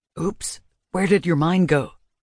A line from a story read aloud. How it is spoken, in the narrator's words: Sebastian whispered